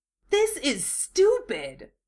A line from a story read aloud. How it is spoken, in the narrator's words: Naruto complains hotly, raising his voice to be heard over the wild thrashing of the chunin in the net trap above his head